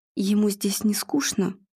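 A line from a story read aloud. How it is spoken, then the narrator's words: Quiet question. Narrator (Russian): тихо поинтересовался Игорь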